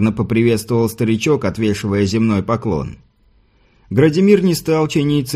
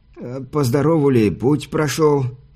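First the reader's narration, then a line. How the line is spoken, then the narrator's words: Trembling voice question. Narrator (Russian): дрогнувшим голосом спросил привратник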